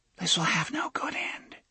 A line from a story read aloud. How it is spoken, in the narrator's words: she said in a whisper